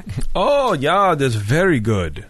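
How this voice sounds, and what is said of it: Put-on Dutch accent. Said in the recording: “that's my Dutch accent.”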